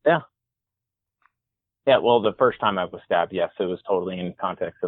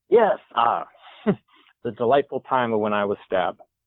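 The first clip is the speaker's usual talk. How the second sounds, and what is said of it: Sarcastic tone. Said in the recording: “I say this sarcastically.”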